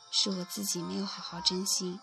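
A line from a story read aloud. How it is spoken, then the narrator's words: Sighing murmur. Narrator (Chinese): 大古叹着气，喃喃地说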